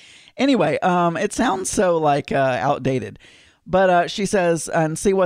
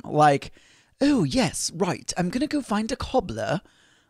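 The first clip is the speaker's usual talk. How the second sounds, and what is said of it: Poor put-on British accent. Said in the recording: “That was a horrible British accent, but that's the best I can do.”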